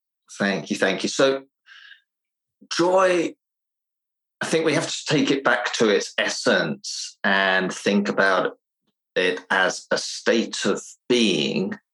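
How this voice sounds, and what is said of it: Slightly unusual English accent. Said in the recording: “I'm originally from England, but I spent most of my life in Finland, which has given me a little bit of a strange English accent”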